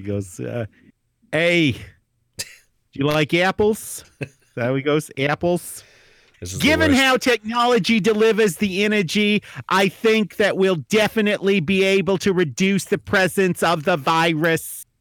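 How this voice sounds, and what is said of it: Put-on Boston accent. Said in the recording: “can you do this next line in a Boston accent? ... How's a Boston accent go?”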